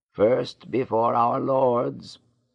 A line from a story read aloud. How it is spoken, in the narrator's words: old Huia ordered in a husky voice